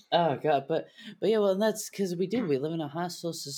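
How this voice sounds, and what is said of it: Usual voice. Nothing is said of it.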